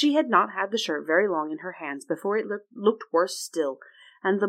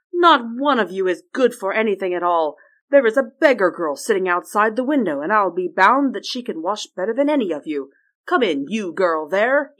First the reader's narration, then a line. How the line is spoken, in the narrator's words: cried